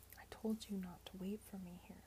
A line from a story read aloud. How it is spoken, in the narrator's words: she whispered fiercely